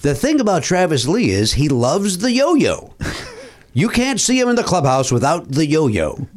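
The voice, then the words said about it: Vince Scully impression. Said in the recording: “You're going to Vince Scully impressions. ... That was way better.”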